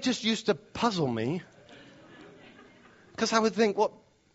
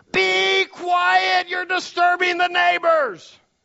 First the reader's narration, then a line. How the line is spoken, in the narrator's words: the mother screaming at the top of her lungs